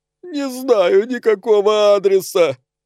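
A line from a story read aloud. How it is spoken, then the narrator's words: Sobbing. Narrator (Russian): прорыдала жертва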